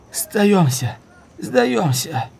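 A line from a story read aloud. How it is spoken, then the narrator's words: Weak hoarse croak. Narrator (Russian): он был так слаб, что голос казался хриплым карканьем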